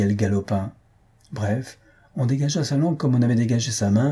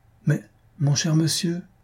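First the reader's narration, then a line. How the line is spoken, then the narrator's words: Stammered. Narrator (French): balbutia Blanquette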